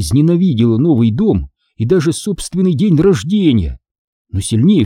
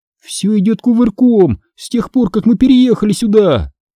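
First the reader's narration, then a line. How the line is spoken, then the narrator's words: Exclamation. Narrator (Russian): воскликнула я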